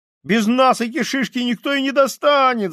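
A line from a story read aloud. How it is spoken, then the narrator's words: Desperate boy shouting. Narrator (Russian): закричал мальчик с отчаянными синими глазами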